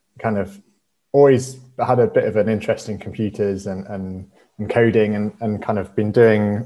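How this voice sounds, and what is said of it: British accent. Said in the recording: “as you can probably tell from my accent, I'm from the UK originally”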